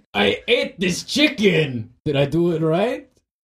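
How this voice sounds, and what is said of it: Distinctive yelping character voice. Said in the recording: “You've got the voice for it. Real yes. distinct. ... couldn't miss it in a crowd. ... It's my local accent.”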